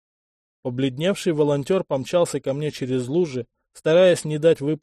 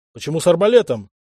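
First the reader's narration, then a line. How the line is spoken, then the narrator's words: Bark. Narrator (Russian): рявкнул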